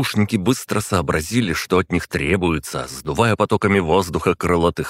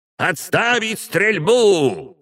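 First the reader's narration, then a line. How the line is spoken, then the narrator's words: Booming old woman's shout. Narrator (Russian): зычным голосом крикнула старуха, которая, кажется, была старше самого времени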